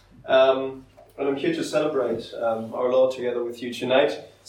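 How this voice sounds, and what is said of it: German accent. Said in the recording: “originally from Germany, as you can tell by my accent, perhaps”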